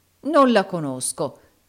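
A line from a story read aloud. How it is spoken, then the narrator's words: Exclaimed. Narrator (Italian): esclamò il baronetto Mulberry Hawk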